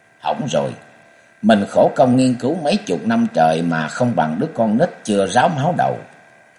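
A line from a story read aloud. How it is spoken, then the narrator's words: Sad sighing mutter. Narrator (Vietnamese): Thần Toán Quỷ Nữ sắc mặt xám ngắt, mụ buồn tiếng thở dài lẩm bẩm một mình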